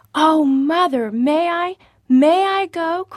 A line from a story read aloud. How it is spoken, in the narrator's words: cried Prudence, her eyes dancing with excitement